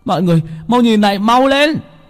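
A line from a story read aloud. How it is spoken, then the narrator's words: Sudden shout. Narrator (Vietnamese): Bảy Ếch la lên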